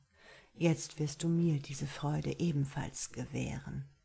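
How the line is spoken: Soft speech into ear. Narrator (German): sagte leise in ihr Ohr

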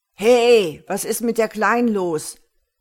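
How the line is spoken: Loud man calling upward. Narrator (German): rief ein breitschultriger Typ lautstark hinauf

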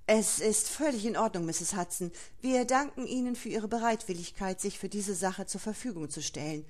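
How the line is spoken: Stammered. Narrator (German): stammelte ich

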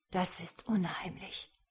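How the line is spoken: Whisper. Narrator (German): flüsterte Runor

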